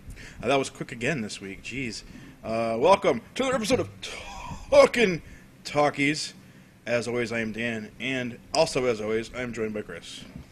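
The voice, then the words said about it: Out of breath. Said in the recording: “out of breathy.”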